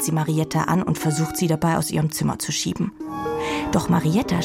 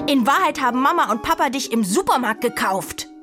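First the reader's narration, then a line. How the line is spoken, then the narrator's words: Bellowing. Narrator (German): brüllt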